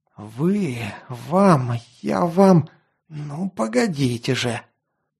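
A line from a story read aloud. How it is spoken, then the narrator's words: Hissed angrily. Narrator (Russian): Злобно прошипел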